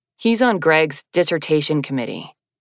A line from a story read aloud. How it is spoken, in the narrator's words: Chase explained, in a significantly milder tone